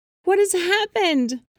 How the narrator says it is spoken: cried the fisherman's wife

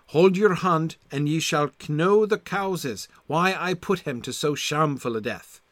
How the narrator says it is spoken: sighed the Red Knicht

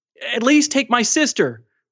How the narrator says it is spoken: Mahmoud begged

